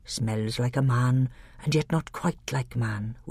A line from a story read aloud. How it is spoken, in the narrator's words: whispered Truffle Hunter